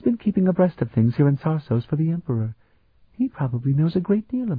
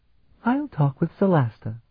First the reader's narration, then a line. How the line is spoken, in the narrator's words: Sophronia sighed